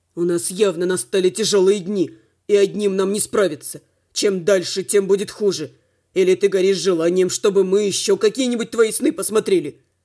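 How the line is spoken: Growl. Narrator (Russian): Рыкнул Слава

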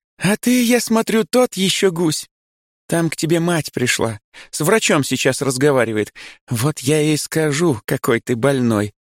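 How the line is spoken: Speaking after laughing. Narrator (Russian): говорит она, отсмеявшись

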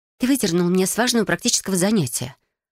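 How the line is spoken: Irritated. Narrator (Russian): раздраженно произнесла Бриана

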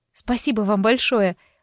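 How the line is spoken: Breathless disbelief. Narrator (Russian): выдохнула я, все еще не веря

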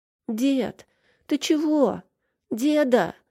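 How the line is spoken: Whimpering child. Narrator (Russian): заскулил ребенок

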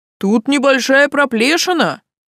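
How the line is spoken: Loud squad member. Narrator (Russian): громко сказал кто-то из отряда

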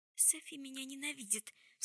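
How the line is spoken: Sobbing. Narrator (Russian): всхлипнула Джессамина

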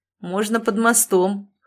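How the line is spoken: Chuckling. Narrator (Russian): хохотнул Долговязый

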